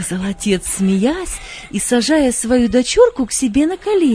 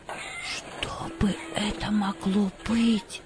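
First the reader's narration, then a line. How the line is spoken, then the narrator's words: Quiet question. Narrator (Russian): спросила она тихим голосом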